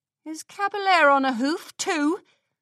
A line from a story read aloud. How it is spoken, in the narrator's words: The pony laughed haughtily